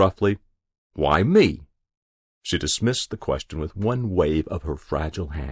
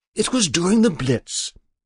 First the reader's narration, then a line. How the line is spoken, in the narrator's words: she said brightly